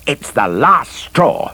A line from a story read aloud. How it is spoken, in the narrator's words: roared Larry